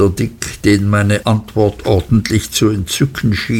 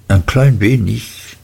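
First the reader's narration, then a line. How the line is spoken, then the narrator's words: Hesitant reply. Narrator (German): entgegnete ich zögernd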